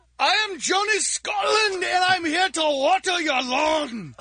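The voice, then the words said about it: Put-on Scottish accent. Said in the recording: “Why does a Scottish guy have to be a landscaper? ... the man of a thousand accents”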